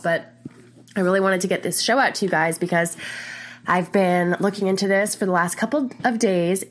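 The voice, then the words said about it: Stuffy, congested nasal voice. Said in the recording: “Please excuse my stuffy nose. I've got a little bit of a cold”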